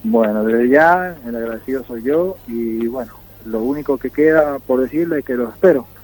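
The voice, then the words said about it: Strong San Juan Argentine accent. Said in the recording (Spanish): “acento autóctono, el acento acentuado de la provincia de San Juan”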